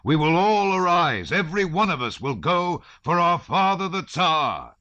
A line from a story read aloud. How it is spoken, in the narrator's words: he shouted